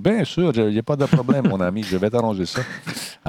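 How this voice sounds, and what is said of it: Put-on foreign accent. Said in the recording (French): “avec un accent comme ça de personnes étrangères”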